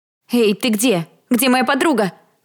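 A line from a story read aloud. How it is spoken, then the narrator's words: Shout with foreboding. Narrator (Russian): крикнула я, уже понимая, что сейчас случится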